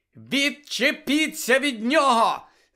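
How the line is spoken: Shouting. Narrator (Ukrainian): закричала Лілі

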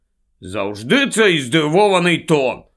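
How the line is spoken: Slightly irritated grumble. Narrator (Ukrainian): трохи роздратовано буркнув Рон

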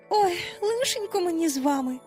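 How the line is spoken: Sighing. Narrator (Ukrainian): знов зітхнула Венді

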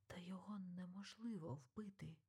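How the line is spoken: Quiet, like a verdict. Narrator (Ukrainian): Тихо промовив, наче виніс вирок Екельс

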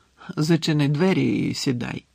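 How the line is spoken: Tired. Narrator (Ukrainian): втомлено сказав Дамблдор

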